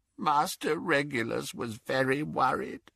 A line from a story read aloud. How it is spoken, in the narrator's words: croaked Kreacher